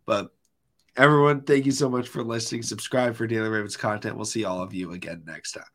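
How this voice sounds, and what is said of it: Rough, strained voice. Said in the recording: “As I'm still coughing. I'm sorry for my voice. ... The voice is hard. ... I just start losing it.”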